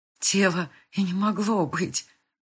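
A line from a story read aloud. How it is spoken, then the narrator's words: Hoarse wheeze. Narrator (Russian): прохрипела щейка, стараясь разжать пальцы Габриэля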